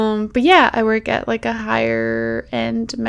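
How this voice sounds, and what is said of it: Usual voice. Nothing is said of it.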